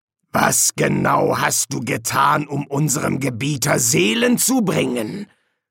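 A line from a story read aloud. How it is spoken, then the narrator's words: Growled. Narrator (German): knurrte Hastur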